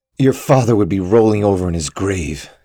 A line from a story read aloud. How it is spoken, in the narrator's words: spat